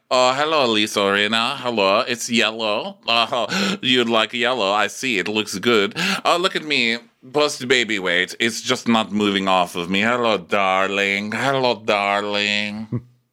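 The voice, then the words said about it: Vague glamorous European accent. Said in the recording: “you can't really put your finger on ... accent. It's like Zsa Zsa Gabor, Greta Garbo, Marlene Dietrich. Her accent's perfect mystique.”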